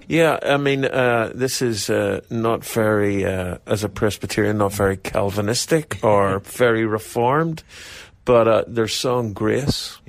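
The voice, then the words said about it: Faint Irish accent. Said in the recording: “He's got a faint Irish accent”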